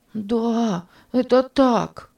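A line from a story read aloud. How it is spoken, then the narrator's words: Frightened boy. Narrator (Russian): сказал испуганно мальчик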